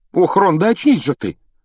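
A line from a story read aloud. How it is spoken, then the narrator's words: Ardent exclamation. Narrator (Russian): с жаром воскликнула Гермиона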